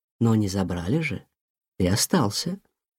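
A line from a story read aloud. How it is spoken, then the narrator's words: Gentle, mother. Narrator (Russian): ласково сказала мама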